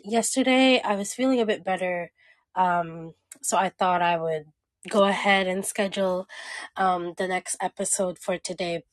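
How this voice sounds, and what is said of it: Strained voice. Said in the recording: “my voice is a little bit strained at the moment ... it's a bit itchy”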